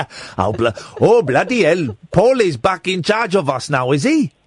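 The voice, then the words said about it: Put-on Swiss accent. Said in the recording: “What's that voice? ... It's a Swiss accent. It's a Swiss accent.”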